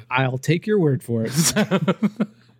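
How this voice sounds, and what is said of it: Put-on stereotypical white guy voice. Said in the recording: “in my white guy voice.”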